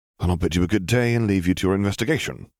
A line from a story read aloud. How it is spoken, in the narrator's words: Harry sighed